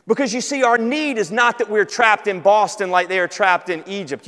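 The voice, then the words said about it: Southern American accent. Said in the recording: “you got a southern accent”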